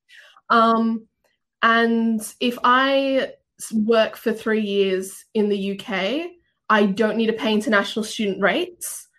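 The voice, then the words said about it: Australian accent with English influence. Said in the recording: “my mum's English. So my accent isn't 100% Australian ... this isn't a real Australian accent.”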